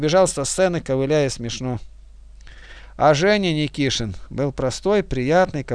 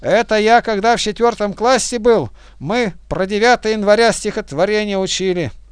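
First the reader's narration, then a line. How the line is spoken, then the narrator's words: Shout in Russian. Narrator (Russian): Уже по-русски он крикнул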